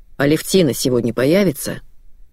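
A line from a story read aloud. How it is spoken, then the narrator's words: Plain question, father. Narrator (Russian): спросил отец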